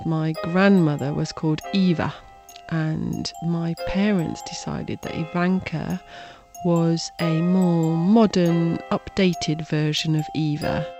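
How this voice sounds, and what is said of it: British accent. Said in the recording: “Her mother's from Britain, hence the accent... British”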